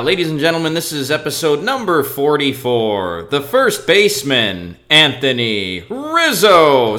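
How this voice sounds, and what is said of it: Imitates a ballpark PA announcer. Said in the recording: “That was my impression of the Cubs public address announcer.”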